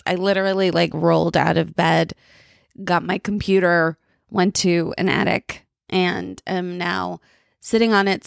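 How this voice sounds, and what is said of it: Tired, groggy voice. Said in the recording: “I am tired and you can hear it from my voice... I just don't sound great”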